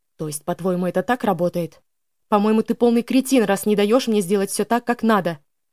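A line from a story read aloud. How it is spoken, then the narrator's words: Angry sharp shout. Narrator (Russian): Вновь обозлившись, прикрикнула я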